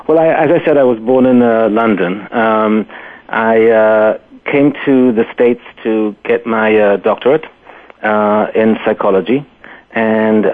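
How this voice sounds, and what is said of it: Faint British accent. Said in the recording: “I didn't know you were going to have a British accent ... this is the remnants of the accent”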